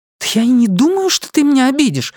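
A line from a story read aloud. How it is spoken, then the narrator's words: Exclaiming, then softening. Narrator (Russian): воскликнула она, тут же смягчив тон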